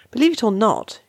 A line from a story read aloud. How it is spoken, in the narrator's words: snaps